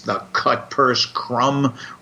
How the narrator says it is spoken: Reeve Marcon snarled

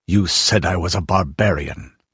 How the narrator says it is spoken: he said harshly

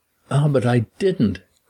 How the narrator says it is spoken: cried Bryden with his long wail

